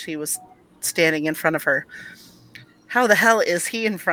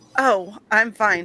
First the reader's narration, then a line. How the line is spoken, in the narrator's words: stammered